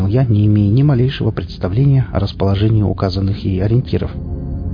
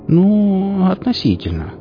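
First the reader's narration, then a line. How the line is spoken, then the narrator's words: Drawn-out drawl. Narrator (Russian): протянула Сонька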